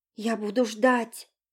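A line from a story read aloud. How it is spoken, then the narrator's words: Quiet. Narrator (Russian): тихо сказала Наташа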